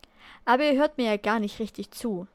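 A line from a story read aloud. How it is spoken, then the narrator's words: Sighing. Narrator (German): seufzte er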